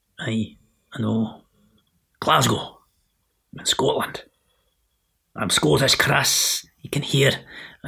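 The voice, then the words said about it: Put-on threatening Glaswegian accent. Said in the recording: “my threatening Glaswegian brogue ... the silly voices”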